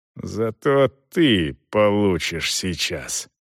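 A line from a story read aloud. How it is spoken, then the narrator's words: Hissed through teeth. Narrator (Russian): Главарь прошипел сквозь зубы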